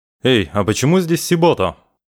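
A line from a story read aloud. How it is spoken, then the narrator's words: Barked. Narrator (Russian): рявкнул Кияма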